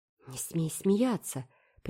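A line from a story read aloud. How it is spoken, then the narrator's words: Whispered warning. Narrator (Russian): предупредила Энн шепотом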